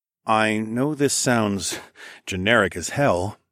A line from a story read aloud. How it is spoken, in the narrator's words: I said in a cautious tone